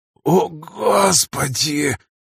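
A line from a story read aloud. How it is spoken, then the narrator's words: Muttered. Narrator (Russian): пробормотал Радюкин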